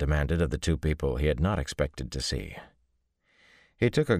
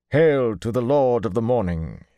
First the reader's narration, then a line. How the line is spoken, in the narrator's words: he said, or rather he intoned it